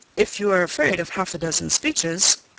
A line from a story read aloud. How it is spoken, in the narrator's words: cried Mr